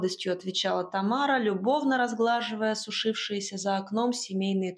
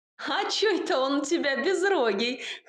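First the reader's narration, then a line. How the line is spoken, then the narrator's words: Laugh from outside window. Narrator (Russian): хохотнула за окном Настасья Павловна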